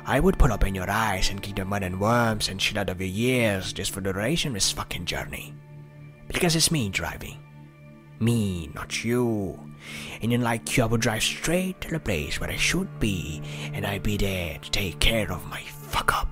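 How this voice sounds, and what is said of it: Put-on Welsh accent. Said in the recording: “this is an American accent specialist on YouTube who has recreated 4 minutes of Tom Hardy doing his Welsh accent ... oh, the Welsh accent is difficult, but I have perfected it”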